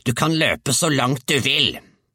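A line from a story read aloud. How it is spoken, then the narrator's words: Shouting after someone. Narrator (Norwegian): hun ropte etter ham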